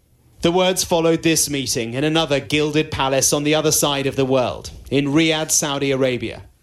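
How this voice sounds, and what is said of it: British accent. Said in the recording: “the Skynet reporter in his lovely British accent”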